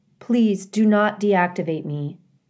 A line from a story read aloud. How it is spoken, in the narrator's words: said